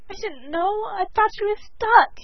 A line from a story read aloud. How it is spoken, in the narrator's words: wailed again